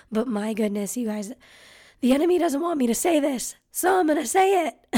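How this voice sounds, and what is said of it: Hoarse, partly lost voice. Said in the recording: “excuse my voice. I have lost it a bit”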